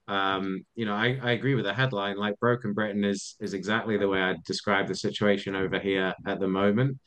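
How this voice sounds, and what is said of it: British accent. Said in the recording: “you can probably tell from my accent, I live in the UK”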